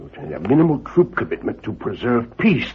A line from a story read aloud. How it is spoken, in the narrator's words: the Emperor mumbled